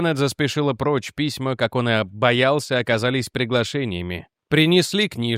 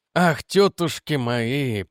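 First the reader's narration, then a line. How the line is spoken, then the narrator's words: Groan. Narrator (Russian): простонал он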